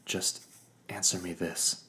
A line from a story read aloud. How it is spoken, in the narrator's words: I said softly